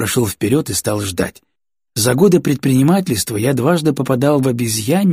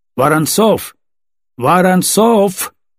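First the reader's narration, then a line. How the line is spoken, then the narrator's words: Loud insistent calling. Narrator (Russian): Настойчиво и громко выкликал кто-то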